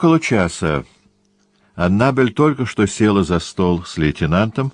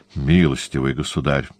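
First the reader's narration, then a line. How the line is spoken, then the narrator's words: Bashful mutter. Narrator (Russian): стыдливо пробормотал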